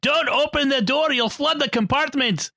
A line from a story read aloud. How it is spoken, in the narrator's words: he said to him in a Scottish accent